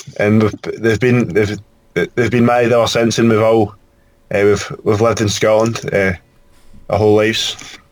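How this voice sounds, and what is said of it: Scottish accent. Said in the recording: “We have a Scottish guest, and so this is going to be a fun chance to hear a very different accent than we usually have on air”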